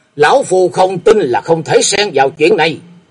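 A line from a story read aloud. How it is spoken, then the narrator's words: Breathless loud shout. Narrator (Vietnamese): Sau một lúc thở dốc, hét lên một tiếng lớn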